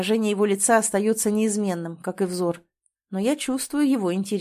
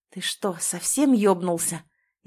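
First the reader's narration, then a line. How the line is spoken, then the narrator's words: Hissing. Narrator (Russian): Из меня вырывается шипение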